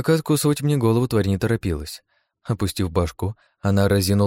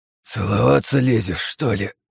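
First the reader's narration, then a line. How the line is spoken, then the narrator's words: Hoarse rasp. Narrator (Russian): прохрипел я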